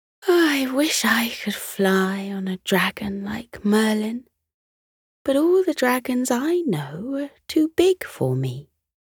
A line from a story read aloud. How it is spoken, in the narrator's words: looked wistfully and said